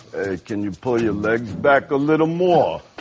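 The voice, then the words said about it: Sylvester Stallone impression. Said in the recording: “a guy that turns into John Travolta for you ... Sylvester Stallone.”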